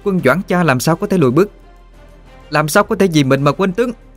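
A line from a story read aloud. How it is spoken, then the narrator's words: Clear ringing shout. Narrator (Vietnamese): một tiếng quát thanh túy vang lên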